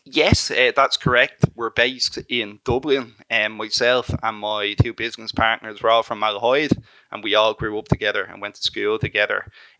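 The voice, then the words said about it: Irish accent. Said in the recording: “judging by your accent, I'm guessing you're in Ireland”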